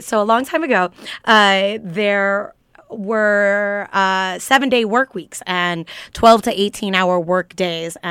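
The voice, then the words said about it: Explanatory teacher voice. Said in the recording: “Your teacher voice is so lit”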